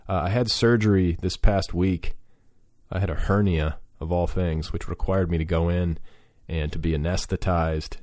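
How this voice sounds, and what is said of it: Slightly strange, medicated-sounding voice. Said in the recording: “I'm currently under the influence of Vicodin. Can you hear it in my voice? ... if I sound a little strange, a little medicated”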